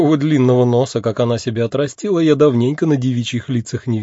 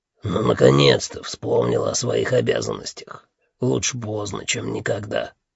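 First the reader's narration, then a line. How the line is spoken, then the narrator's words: Grumbling boss. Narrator (Russian): проворчал шеф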